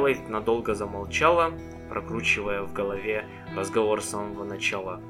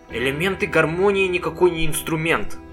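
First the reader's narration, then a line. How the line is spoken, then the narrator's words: Angry remark. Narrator (Russian): сердито заметила она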